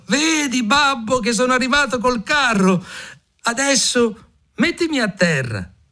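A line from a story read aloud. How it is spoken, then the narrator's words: Excited shout. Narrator (Italian): Appena Mignolino vide suo padre, gli gridò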